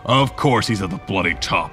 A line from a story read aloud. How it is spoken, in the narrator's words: Toru growled